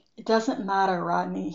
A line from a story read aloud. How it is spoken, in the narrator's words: he said wearily